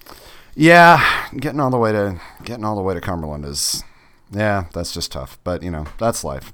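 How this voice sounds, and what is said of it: Slightly scratchy voice. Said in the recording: “I'm having some allergy things. So if my voice sounds a little scratchy”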